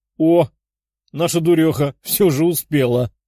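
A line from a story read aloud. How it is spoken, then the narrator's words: Loud laughter. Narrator (Russian): Зеленокожая громко рассмеялась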